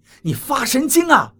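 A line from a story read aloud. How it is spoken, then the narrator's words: Shouting in pain. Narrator (Chinese): 我鼻梁剧痛，对王八喊道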